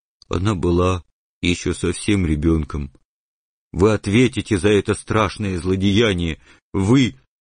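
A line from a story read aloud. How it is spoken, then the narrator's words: Muffled, tearful voice. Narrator (Russian): Бульдозер с глазами полными слез глухо произнес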